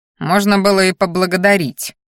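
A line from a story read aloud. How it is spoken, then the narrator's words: Through gritted teeth. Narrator (Russian): процедил я сквозь зубы в ответ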